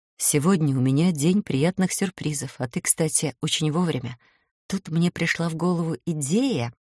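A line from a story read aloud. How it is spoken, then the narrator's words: Whispered explanation. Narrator (Russian): шепотом объясняю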